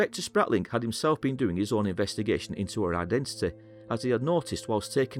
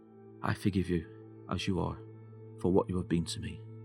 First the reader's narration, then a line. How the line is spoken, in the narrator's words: whispered